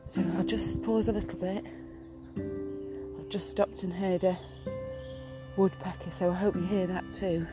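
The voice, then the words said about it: Out of breath, breathless speech. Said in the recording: “I'm out of breath.”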